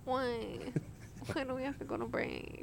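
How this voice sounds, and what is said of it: Whiny voice. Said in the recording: “whiny voice. I love when I get the whiny voice.”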